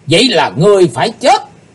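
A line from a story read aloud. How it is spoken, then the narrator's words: Loud collective shout. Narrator (Vietnamese): 12 vị sứ giả Hải Âu quát to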